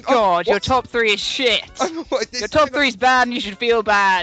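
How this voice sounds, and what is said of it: Imitates another person's voice. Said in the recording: “Have you turned into me? ... now you're doing an impression of me.”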